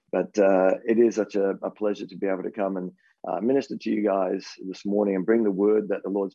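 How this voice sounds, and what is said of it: Rough, unwell-sounding voice. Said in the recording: “my voice is it's a little bit Kamal-ish this morning ... I felt not really well yesterday ... you just have to put up with the voice this morning and just keep praying that I have a voice”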